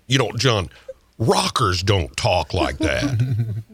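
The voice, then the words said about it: Imitates another person's voice. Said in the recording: “Doing the impersonation, that's funny.”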